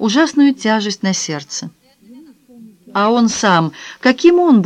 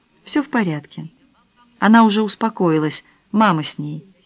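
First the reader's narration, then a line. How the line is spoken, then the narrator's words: Quiet explanation. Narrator (Russian): Дани тихонько пояснила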